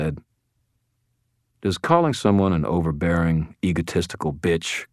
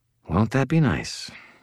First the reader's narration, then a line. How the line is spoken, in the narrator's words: I mumbled